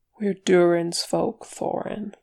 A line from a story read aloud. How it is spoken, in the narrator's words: Fili said gently